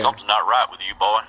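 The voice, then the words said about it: Put-on Southern accent. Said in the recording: “I'm glad you pulled out the accent and I didn't, because I was about to do that”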